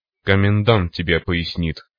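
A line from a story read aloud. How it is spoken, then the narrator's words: Snorted. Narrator (Russian): хмыкнул майор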